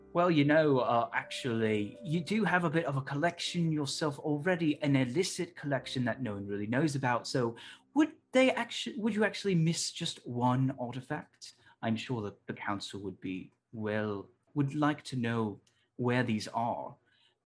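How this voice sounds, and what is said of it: Poor attempt at Australian accent. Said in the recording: “I completely forgot how to do an Australian accent... It's a toughie.”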